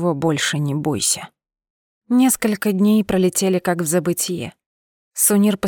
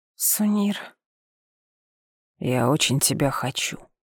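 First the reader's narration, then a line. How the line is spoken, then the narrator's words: Soft breathy. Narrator (Russian): тихо выдохнул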